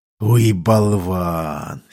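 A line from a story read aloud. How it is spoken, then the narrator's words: Whispered with heavy sigh. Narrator (Russian): с тяжелым вздохом прошептал капитан Лех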